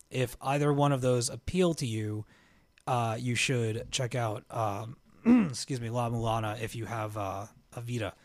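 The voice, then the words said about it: Hoarse, scratchy voice. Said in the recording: “Why is my voice getting hoarse all of a sudden?”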